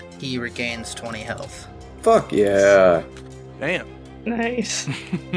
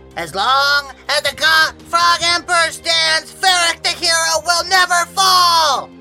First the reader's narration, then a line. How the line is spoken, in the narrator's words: he yells